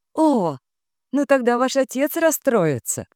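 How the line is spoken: Flustered laugh. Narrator (Russian): рассмеялась Диана, вспыхнув от плохо завуалированного комплимента

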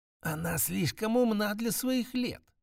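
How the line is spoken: Careful whispering old women. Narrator (Russian): шептались между собой старейшие женщины, аккуратно выбирая слова

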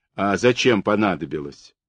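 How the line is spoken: Woman's angry question. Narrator (Russian): ответила Захару тетка Фекла, мать Анютки, и тут же сердито спросила

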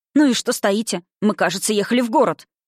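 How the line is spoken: Angry exclamation. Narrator (Russian): воскликнула гневно

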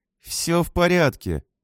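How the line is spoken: Through clenched teeth. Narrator (Russian): процедила она, стискивая зубы

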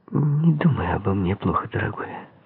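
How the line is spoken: Quiet. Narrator (Russian): негромко сказала Марго

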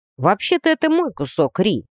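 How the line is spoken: Smirking grunt. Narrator (Russian): хмыкнул Грей

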